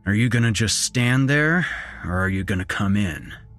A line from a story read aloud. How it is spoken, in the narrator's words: my father said in his usual gruff, slow tone